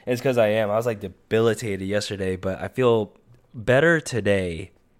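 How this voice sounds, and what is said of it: Sick-sounding voice. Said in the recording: “I sound really sick.”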